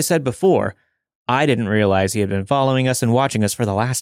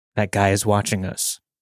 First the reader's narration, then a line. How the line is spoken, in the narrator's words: She quietly mumbled